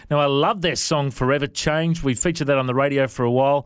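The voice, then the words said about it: Non-American accent. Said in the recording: “do you guys understand my accent? I know a lot of US artists we speak to don't understand our accent.”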